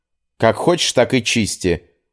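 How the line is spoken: Snapping young woman. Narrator (Russian): огрызнулась девушка

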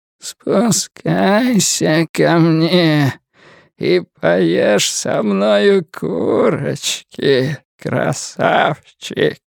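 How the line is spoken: Creature's cracked dying whisper. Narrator (Russian): прошептала тварь над треснутым, умирающим голосом

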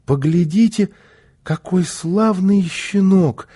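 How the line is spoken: Joyful child exclaiming. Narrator (Russian): радостно воскликнул малыш

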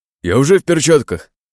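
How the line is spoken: Exclaiming. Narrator (Russian): воскликнул он

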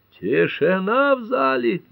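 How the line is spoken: Roaring. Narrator (Russian): взревел судья Ньюболт

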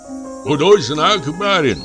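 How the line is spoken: Man shouting. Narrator (Russian): крикнул мне какой-то мужик

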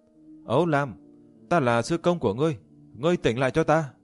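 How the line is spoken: Shout. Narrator (Vietnamese): Diệp Chi Thu hét lên

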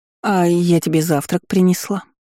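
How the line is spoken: Cough. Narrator (Russian): кашлянула Вивьен

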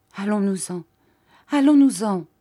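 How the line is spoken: Stammered. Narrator (French): balbutia-t-elle

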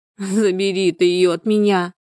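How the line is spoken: Loud sobbing. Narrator (Russian): зарыдала во весь голос Людмила

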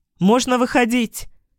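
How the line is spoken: Shouted. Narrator (Russian): крикнула

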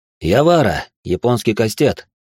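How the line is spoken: Snorting. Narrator (Russian): хмыкнул он

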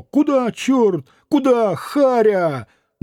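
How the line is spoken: Frightened comical cries. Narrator (Russian): двое, вскрикивая испуганно и смешно

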